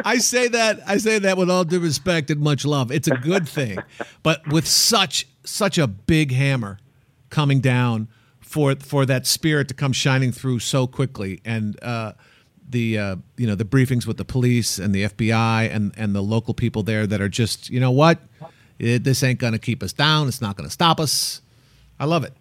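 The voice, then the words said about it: Poor put-on Boston accent. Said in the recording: “That's your Boston accent? ... that wasn't very good.”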